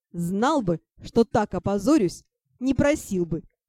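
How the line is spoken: Good-natured laughter. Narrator (Russian): Беззлобно расхохотался дракон

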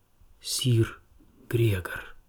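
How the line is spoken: Whispered into pillow. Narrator (Russian): шептала она в свою соломенную подушку

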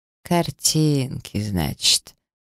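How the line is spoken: Drawling. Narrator (Russian): протянул маг

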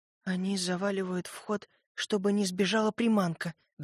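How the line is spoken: Trembling, dawning realization. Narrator (Russian): дрожащим голосом произнесла начавшая все понимать Сойка

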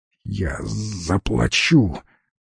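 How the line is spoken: Wheezy. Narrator (Russian): просипел незадачливый заказчик

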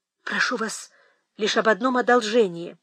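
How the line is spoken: Agitated. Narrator (Russian): взволнованно сказала Кэтрин

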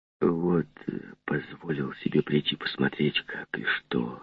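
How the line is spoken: Timid apologetic whisper. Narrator (Russian): шепнул он, словно бы извиняясь и робея

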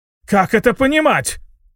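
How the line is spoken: Shrill shriek. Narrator (Russian): взвизгнул Брассар после нашего вторжения

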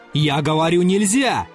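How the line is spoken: Shouting again. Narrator (Russian): закричал опять Назаров

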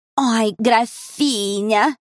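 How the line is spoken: Mocking drawl. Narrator (Russian): насмешливо протянула подруга

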